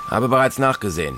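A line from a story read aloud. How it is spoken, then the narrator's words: Plain. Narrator (German): antwortete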